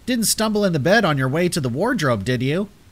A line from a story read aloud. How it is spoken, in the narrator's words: Joanne laughed loudly from downstairs